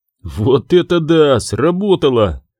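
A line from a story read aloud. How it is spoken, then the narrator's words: Delighted exclamation. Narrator (Russian): с восторгом воскликнул Нильд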